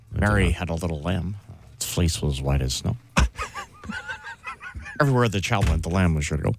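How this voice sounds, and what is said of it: Imitates another person's voice. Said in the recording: “worst Tiger Woods impression ... I envisioned it being better in my head ... Not your worst, though.”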